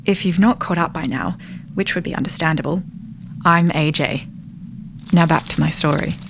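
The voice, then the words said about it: Australian accent. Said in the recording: “Why does he sound Australian?”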